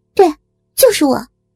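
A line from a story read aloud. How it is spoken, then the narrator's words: Angry shout. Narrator (Chinese): 小林一脸气愤的喊道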